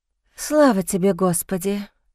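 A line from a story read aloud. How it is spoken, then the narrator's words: Chanted exhale. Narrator (Russian): речитативом выдохнула я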